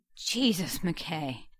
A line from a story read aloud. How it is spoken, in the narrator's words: he groaned